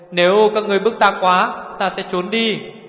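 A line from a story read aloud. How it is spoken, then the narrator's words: Shouting. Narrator (Vietnamese): Hồ Thiết Hoa hét lên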